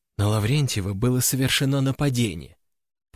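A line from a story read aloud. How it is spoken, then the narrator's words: Whispered close. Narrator (Russian): прошептала она, склонившись ко мне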